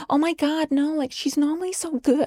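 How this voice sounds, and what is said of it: Bad put-on American accent. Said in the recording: “that's like the worst American accent ever”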